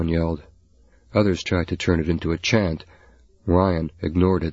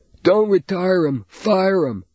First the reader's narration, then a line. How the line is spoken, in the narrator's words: came another yell